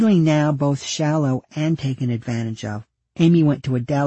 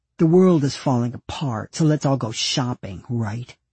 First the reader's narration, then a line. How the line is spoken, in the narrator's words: one of them spat